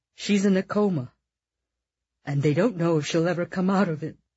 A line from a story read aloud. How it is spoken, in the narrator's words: Charlie said, his voice cracking in grief